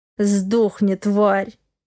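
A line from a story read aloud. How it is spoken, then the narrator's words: Snarling. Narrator (Russian): прорычал Дима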